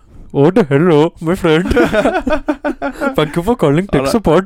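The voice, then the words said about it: Put-on Indian accent, Apu impression. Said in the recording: “Indian. ... Alright, Apu.”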